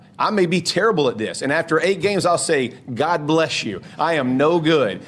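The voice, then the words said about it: Southern American accent. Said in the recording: “that much of a Southern accent ... He's a Georgia guy, North Carolina. I mean, he's a Southern guy.”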